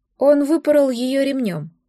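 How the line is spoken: Sigh. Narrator (Russian): вздохнул он

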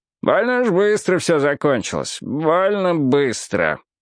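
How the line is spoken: Displeased grumble. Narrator (Russian): недовольно проворчал мужчина рядом с Робом

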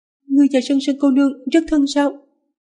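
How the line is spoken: Frightened, ingratiating horse. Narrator (Vietnamese): Con ngựa sợ hãi, cố gắng giả ngốc lấy lòng nữ chủ nhân

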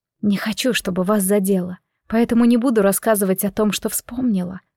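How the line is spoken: Cornered whisper. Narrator (Russian): прошептала я, почувствовав, что меня загоняют в ловушку

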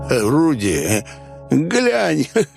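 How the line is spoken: Silly giggle. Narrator (Russian): он глупо хихикнул

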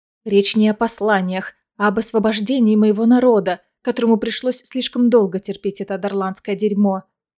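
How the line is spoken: Snapping retort. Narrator (Russian): огрызнулась Айлина

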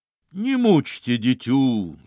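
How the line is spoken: Deep bass voice. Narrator (Russian): забасил он

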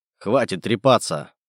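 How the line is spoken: Growled. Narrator (Russian): прорычал

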